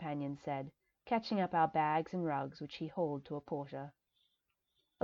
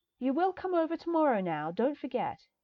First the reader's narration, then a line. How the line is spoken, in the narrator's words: the young woman on the boat called out